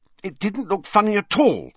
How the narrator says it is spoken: said Hermione hotly

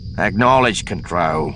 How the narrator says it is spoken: Duncan growled

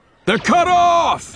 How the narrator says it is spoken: Gaul shouted

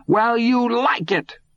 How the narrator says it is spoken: Todd shouted back

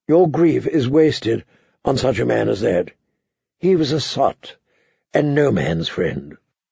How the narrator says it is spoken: Littlefinger murmured

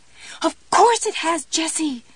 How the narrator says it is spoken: Pumpkin screamed

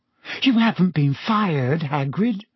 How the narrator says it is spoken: gasped Hermione

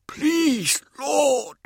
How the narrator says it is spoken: Ida cried

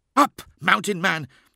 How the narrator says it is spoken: hissed

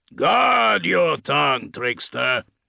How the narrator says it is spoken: Hafrek growled

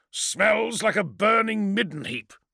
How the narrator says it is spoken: growled

